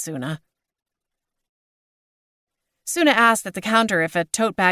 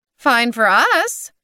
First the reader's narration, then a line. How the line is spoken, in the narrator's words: chirped Maud